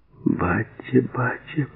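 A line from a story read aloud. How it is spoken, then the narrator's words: Sobbing repetition. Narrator (Russian): повторяла, сотрясалось от рыданий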